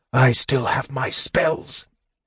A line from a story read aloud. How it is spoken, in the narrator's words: whispered the mage